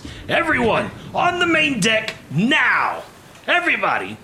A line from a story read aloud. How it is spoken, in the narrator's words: Plug is bellowing at the top of his lungs